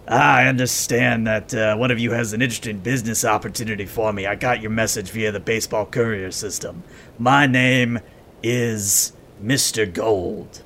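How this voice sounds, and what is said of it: Raspy, upbeat character voice. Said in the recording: “We'll just make him standard ghoul raspy for now ... he is very upbeat”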